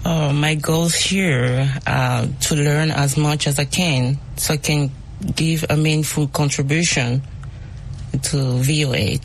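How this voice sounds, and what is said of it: Speaks English with an accent. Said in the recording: “My accent. ... We love accents. We all have accents.”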